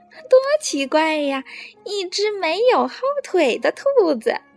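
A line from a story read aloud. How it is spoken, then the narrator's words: Loud laughter. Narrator (Chinese): 他开始大笑起来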